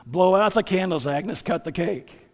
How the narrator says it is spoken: Harry, who's not used to seeing a prostitute cry, gruffly mumbles

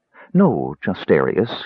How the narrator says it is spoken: she said coolly

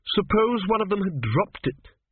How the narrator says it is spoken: she snapped

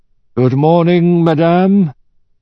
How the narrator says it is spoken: intoned

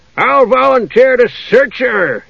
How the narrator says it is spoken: he yelled

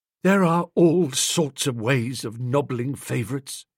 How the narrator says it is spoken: he said in a sort of deathbed voice

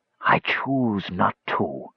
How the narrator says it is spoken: the voice rasped

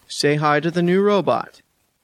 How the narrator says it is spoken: the tailor says, his voice growing deeper

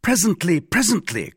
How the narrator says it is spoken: cried the latter

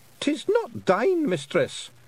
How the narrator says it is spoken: shrieked Rob Anybody

